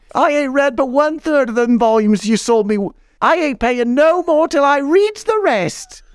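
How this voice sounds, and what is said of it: Shouted put-on Cotswolds accent. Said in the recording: “in that Cotswolds accent, you know, it's almost like listening to a Waddle and Dobbs sketch ... She screams at me”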